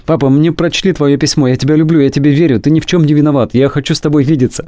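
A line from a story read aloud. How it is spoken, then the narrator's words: Ringing rapid child's chatter. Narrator (Russian): Позвонил Патрик и звонким голоском затараторил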